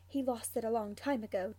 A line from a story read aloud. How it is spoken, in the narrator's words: James whispers back